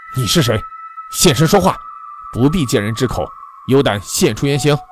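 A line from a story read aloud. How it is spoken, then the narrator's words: Stern, harsh. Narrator (Chinese): 高天镇静了片刻，他厉声说道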